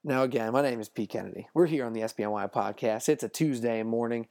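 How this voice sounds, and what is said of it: Worn-out, rough-sounding voice. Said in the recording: “if you can't tell by my voice, man, I'm feeling the pain a little bit from Labor Day weekend”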